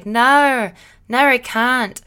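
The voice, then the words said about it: Weak put-on Australian accent. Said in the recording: “this weird Australian accent ... it's like not good”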